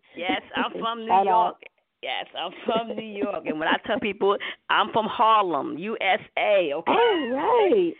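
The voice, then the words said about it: New York accent. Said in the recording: “That beautiful accent. I love a New York accent.”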